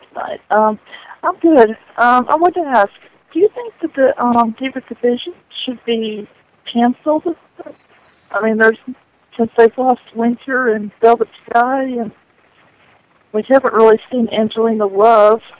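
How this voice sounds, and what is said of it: Hoarse, quiet sore-throat voice. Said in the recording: “Sorry, my voice. ... I have a sore throat ... You were a little low on my headset.”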